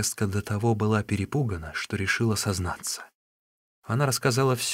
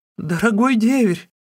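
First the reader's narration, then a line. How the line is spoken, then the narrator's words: Shrieking. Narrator (Russian): завизжала она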